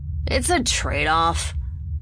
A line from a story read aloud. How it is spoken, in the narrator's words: Staven said with a sigh